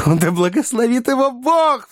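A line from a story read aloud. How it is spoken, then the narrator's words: Sobbing, motherly emotional interjection. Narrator (Russian): вставила миссис Бардл, всхлипнув в приливе материнских чувств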